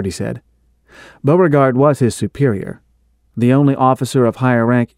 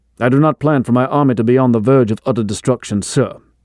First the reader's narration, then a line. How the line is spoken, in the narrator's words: Hardy said, stiffly